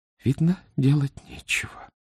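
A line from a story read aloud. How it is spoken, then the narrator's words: Quiet, to herself. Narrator (Russian): сказала она тихо, словно себе самой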